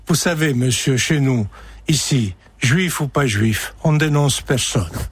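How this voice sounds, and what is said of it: Imitated old Corsican accent. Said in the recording (French): “un vieux Corse... il a dit avec l'accent que je ne peux pas m'empêcher de reprendre”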